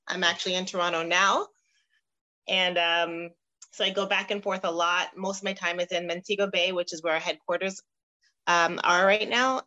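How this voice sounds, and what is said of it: Canadian accent. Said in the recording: “As you can hear, the accent you're hearing is I'm from Canada.”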